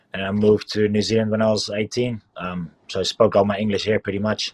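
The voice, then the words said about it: Slight New Zealand accent. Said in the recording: “I got the New Zealand accent going on a little bit”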